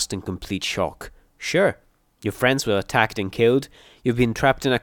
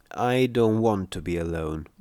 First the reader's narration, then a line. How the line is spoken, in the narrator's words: Morning Glory said wearily, clearly not trusting me